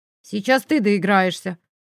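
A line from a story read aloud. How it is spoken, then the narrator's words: Calm threatening promise. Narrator (Russian): спокойно пообещал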